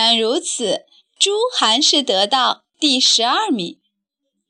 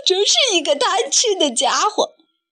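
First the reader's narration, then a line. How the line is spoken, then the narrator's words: Group laughing heartily. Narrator (Chinese): 大家哈哈大笑，说道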